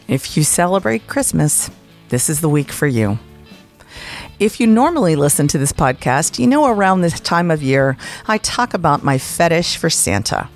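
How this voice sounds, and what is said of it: Sounds sick. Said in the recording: “You can probably hear in my voice that I'm sick”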